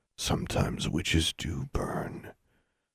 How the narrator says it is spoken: He whispered in her ear

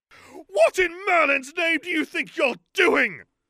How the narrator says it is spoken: she screamed at Algy

